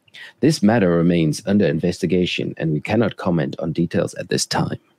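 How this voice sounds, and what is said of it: Deep, serious corporate announcer voice. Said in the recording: “Do you like that voice? Is that good? The deep voice? ... serious voice ... this is my Mr. Pokemon voice”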